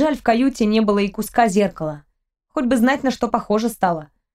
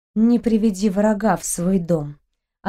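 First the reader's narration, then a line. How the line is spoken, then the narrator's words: Sighing. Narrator (Russian): она вздохнула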